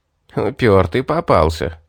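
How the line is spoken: Pleased chuckle. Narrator (Russian): довольно хохотнул Винсент

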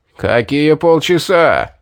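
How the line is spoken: Roaring. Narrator (Russian): взревел предводитель

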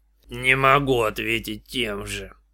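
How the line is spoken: Grumbling. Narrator (Russian): буркнул

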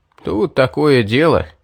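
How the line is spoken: Sad sigh. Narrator (Russian): печально вздохнул Стоун

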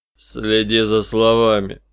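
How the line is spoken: Muffled grumble. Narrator (Russian): глухо проворчал Листер

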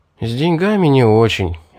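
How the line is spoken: Sighed. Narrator (Russian): вздохнул я

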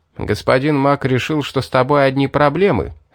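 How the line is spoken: Plain. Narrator (Russian): сказал Рил

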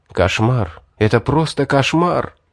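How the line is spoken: Shocked whisper. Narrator (Russian): прошептал я, потрясенный словами жреца

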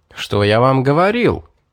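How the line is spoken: Joyful exclamation. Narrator (Russian): обрадованно воскликнул Лерой

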